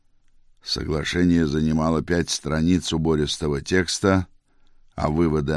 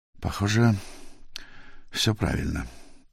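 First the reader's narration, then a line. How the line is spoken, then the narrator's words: Worried mutter. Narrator (Russian): Наконец Пирен озабоченно пробормотал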